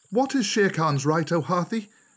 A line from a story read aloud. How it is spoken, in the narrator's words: Mowgli waited for a minute to pick up his courage, and then he cried